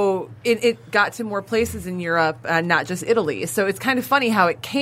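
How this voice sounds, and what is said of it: Usual voice. Nothing is said of it.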